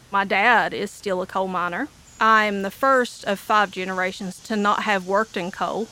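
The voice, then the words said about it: Appalachian Eastern Kentucky accent. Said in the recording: “I am an Appalachian or Eastern Kentuckian ... made fun of and humiliated for my accent ... As soon as I open my mouth and they can tell that I'm a hillbilly”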